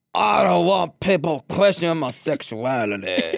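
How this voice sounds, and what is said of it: Impersonation of a straight guy. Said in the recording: “let me do the correct straight person impersonation ... That was really good.”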